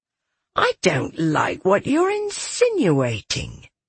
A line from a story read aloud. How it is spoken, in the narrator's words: she said with a mental growl